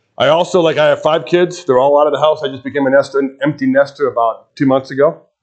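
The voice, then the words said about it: Chicago accent. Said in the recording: “I grew up in Chicago, so you'll pick up the accent after a while. I have a little different accent going on.”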